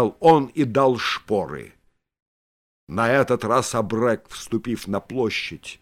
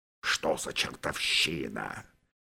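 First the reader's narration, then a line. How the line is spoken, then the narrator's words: General grumbling. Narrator (Russian): проворчал генерал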